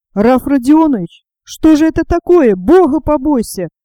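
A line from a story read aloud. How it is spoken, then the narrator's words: Desperate shouting. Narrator (Russian): отчаянным голосом закричал Дмитрий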